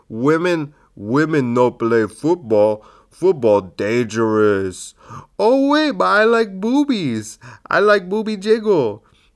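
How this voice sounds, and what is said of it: Dumb caveman-like voice. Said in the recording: “in a dumb voice. I wrote in parentheses, dumb voice.”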